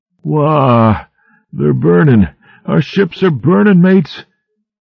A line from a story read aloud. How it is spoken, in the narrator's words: bawling aloud like a babe in a tantrum